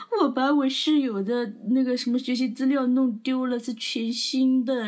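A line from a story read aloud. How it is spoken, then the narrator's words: Crying under covers. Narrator (Chinese): 她躲在被子里面，边边哭哭啼的，边边跟她男朋友说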